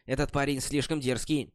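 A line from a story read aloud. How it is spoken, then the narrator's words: Angry woman's voice. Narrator (Russian): Женщина-рыцарь Сьюзан сердито сказала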